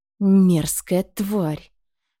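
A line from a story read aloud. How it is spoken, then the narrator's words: Young man's distant hiss. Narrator (Russian): прошипел стоящий в конце зала молодой Норт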